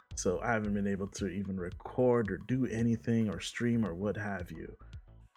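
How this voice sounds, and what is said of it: Sick-sounding voice. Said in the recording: “as you could probably hear from my voice, I've been sick”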